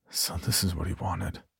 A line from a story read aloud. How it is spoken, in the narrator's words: I whispered